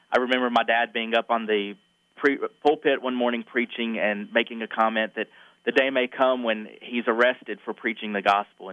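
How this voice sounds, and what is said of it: Southern US accent. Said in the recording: “I'm a Southern boy, if my accent doesn't give it away”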